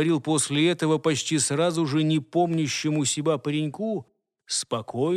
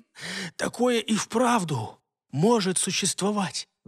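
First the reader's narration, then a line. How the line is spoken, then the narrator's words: Forced out through coughing. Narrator (Russian): выдавил из себя сквозь кашель Альфред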